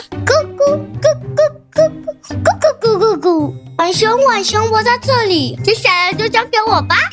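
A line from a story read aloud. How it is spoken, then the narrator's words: Turkey, hurried reply. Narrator (Chinese): 火鸡刚好听到浣熊的呼叫声，他赶紧回答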